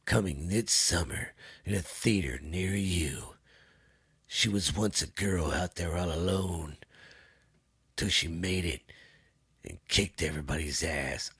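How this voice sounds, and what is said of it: Dramatic movie trailer narrator voice. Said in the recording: “I like doing that movie voice.”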